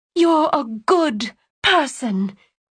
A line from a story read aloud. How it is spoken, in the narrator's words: she exclaimed, her own voice ricocheting off the walls as Lyra's had moments before